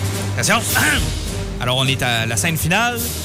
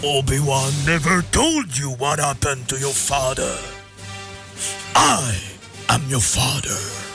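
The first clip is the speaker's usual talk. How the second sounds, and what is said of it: Darth Vader movie villain impression. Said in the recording (French): “ton imitation de Darth Vader ... C'était pas une très bonne imitation.”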